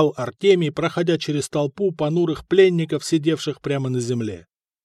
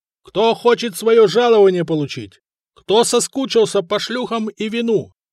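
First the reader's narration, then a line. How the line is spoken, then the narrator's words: Yelling. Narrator (Russian): орал Артемий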